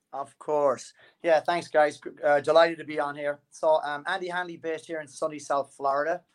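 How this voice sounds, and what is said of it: Speaks with a noticeable accent. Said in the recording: “you'll pick up his accent”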